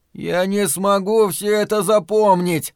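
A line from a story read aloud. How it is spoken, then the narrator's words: Groaning. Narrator (Russian): застонал Том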